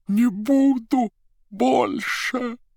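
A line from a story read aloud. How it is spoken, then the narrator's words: Wheezing rasp. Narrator (Russian): прохрипела голова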